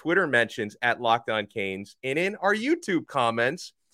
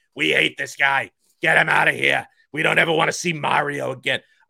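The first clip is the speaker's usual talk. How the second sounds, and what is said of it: Exaggerated villain voice. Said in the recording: “that's just my villain voice”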